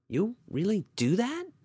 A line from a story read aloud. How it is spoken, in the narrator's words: Brenda asked timidly